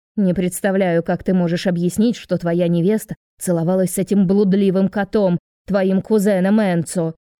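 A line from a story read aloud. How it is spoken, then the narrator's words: Loud declaration. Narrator (Russian): Громко заявляет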